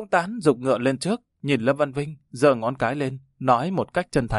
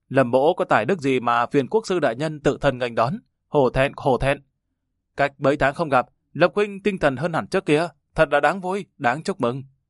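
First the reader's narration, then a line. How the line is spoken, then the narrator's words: Hearty laughing reply. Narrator (Vietnamese): Lâm Văn Vinh ha ha cười lớn, đáp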